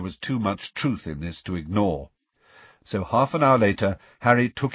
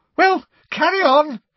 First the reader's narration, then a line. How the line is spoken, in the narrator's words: said Professor Trelawney loudly, her voice high-pitched and somewhat hysterical